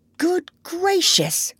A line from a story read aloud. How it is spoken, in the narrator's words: cried the doctor